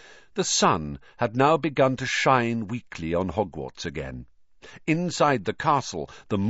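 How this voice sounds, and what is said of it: Usual voice. Nothing is said of it.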